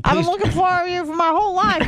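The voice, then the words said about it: Over-the-top imitation of another person's voice. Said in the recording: “impersonation of me is just way ... over the top”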